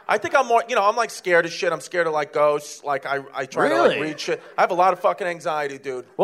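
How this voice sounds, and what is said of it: Strong Brooklyn New York accent. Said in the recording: “you're a big Brooklyn mook ... I sound like a fucking garlic nut. You know, like, I can't lose my accent”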